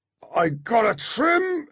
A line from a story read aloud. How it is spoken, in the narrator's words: said through gritted teeth